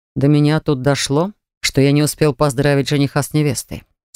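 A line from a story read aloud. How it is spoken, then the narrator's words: Calm reply. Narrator (Russian): спокойно ответил Даррен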